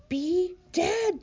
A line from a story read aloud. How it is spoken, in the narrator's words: Bongo cried again